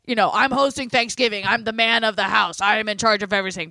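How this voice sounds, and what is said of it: Imitates another person's voice. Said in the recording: “That's a very good impression.”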